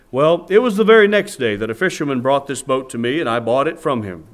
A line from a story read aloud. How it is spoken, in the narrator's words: the storekeeper said